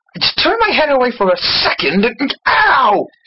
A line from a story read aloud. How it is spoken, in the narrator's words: He exclaimed